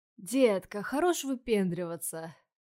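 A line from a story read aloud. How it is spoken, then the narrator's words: Lazy drawl. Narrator (Russian): Лениво протянул один из качков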